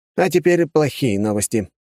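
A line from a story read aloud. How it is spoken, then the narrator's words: Sighing. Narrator (Russian): вздохнул помощник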